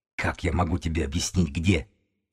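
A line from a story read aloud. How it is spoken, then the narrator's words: Hissed reply. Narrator (Russian): зашипел Тим в ответ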